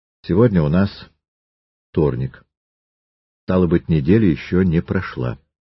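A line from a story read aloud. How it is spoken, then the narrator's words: Calm. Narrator (Russian): Триродов спокойно сказал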